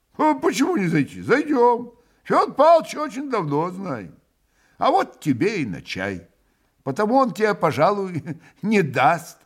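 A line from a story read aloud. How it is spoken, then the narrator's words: Cheerful laughter. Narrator (Russian): весело засмеялся Иван Федорович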